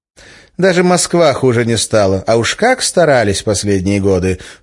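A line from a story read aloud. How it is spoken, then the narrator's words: Snorted. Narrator (Russian): фыркнула Арина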